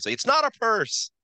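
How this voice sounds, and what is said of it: Imitates another person's voice. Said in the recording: “good Seinfeld impression”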